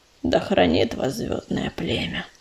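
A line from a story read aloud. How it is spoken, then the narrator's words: Deep voice, female badger. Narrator (Russian): пробасила барсучиха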